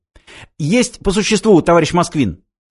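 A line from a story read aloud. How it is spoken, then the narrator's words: Rapid chatter. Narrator (Russian): затараторил адъютант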